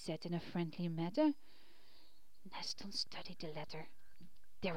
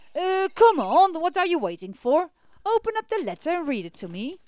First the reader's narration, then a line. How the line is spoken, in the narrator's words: said Brave Hunter impatiently